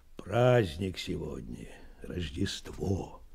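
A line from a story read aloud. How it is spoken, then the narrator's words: Quiet reply. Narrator (Russian): тихо ответил Меркулов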